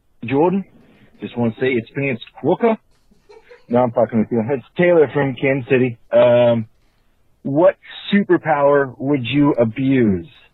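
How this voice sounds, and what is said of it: Fairly decent put-on Australian accent. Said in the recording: “That wasn't a terrible Australian accent. I will give him that. ... and, that wasn't terrible at all.”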